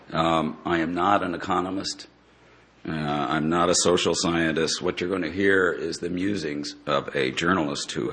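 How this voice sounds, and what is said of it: Voice in bad shape, strained. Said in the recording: “my voice is really in bad shape. This has never happened to me before”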